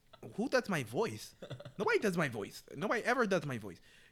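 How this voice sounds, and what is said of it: Imitates another person's voice. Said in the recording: “That's actually how I learned how to do Mike Tyson”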